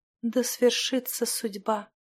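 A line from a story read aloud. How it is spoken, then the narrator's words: Whisper. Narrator (Russian): прошептала Стихана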